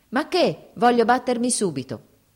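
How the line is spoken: Grim shouting. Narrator (Italian): gridò il nostro eroe con aria torva

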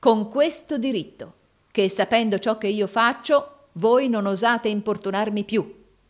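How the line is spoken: Plain. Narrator (Italian): disse Nicola

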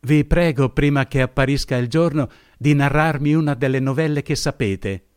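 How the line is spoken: Exclaimed. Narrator (Italian): esclamò essa

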